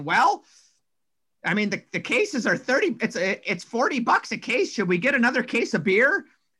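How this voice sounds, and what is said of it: Impression of the team's GM. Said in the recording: “this is my Phil impersonation.”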